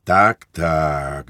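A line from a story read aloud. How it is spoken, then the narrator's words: Priest sighing. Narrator (Ukrainian): зітхнув отець духовний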